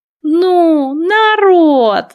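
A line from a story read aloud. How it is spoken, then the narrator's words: Groaning. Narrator (Russian): застонал Азя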